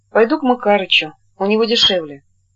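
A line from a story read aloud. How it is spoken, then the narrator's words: Sighing. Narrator (Russian): вздохнув, сказал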